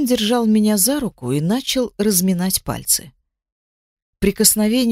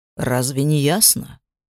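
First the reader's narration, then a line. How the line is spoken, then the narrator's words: Question with a snort. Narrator (Russian): спросил он, хмыкнув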